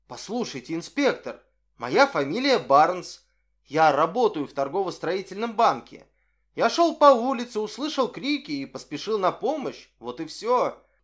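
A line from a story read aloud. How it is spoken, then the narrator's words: Bewildered exclamation. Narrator (Russian): Солон, совершенно сбитый с толку этой неожиданной переменой ролей, воскликнул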